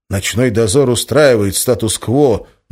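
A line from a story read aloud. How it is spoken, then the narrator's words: Gloomy. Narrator (Russian): мрачно произнес Валентин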